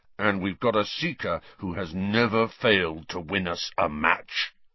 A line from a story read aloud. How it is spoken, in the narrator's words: Wood rumbled, with a kind of furious pride